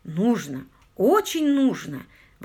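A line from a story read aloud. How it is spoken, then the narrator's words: Exclaiming. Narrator (Russian): воскликнул Паркер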